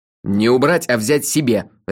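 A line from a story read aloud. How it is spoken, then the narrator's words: Barked. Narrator (Russian): рявкнул я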